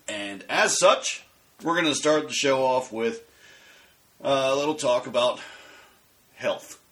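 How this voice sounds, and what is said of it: Congested, sick-sounding voice. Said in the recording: “can hear it in my voice, but I'm getting over a cold.”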